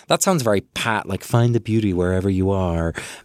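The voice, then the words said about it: Put-on American accent. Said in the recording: “that was an American accent ... Let me do my American accent”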